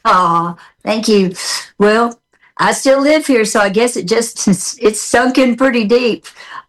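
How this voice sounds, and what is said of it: Southern American accent. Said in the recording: “I like your Southern accent. It never goes away.”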